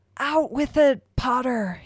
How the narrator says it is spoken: he bellowed

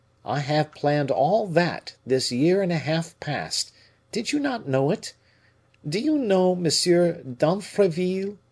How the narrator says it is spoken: replied Colbert in a bantering tone

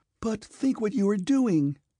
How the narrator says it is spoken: cried Sonya

